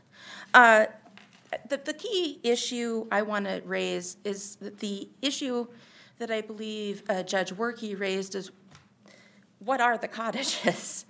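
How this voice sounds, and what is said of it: Rough, sick-sounding voice. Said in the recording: “I apologize for my voice, I developed a cold.”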